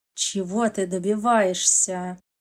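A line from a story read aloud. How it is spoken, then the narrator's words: Through gritted teeth. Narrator (Russian): Макаров процедил сквозь зубы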